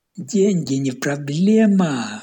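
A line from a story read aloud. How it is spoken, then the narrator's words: Shouted, drinking buddy. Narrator (Russian): выкрикнул мой собутыльник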